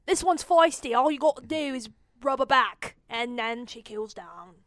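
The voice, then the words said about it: Bad put-on Australian accent. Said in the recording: “That was my absolutely terrible Australian accent. I could do better. I was just not warmed up.”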